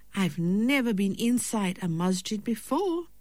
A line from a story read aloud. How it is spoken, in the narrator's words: said excitedly